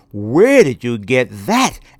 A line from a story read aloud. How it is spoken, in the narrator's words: exclaimed